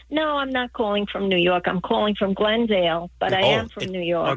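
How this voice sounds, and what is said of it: New York accent. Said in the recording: “are they telling me you're calling from New York? ... Okay, the accent.”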